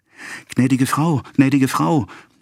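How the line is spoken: Urgent call, rushing in. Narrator (German): rief Félicie, die ins Zimmer stürzte

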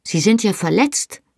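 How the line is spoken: Exclaimed. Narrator (German): rief ich aus

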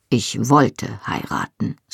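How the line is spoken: Firm voice. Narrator (German): sagte Jamie mit fester Stimme

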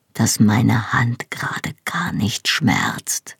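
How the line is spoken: Quiet answer. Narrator (German): antwortete er leise

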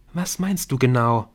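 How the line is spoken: Gentle question. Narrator (German): fragte Emily sanft

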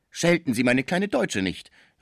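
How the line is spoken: Calling out. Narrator (German): rief Schmucke, der in dem Kind sein liebes Deutschland sah

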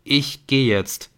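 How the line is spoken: Plain. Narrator (German): sagte Nick

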